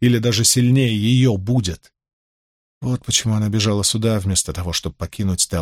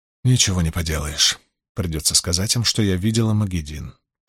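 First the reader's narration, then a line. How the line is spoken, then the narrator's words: Muttered. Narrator (Russian): пробормотала Найниф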